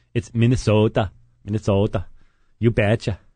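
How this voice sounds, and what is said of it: Put-on Minnesotan accent. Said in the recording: “my Minnesotan accent”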